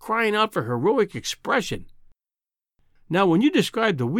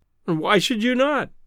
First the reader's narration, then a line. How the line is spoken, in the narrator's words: I cried